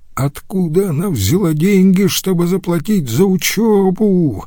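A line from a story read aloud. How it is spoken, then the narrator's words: Yelling. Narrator (Russian): вопил Рюдегер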